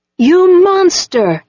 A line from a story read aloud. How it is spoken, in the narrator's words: screamed